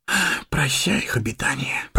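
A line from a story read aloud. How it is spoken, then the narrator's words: Whisper. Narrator (Russian): прошептал Сэмми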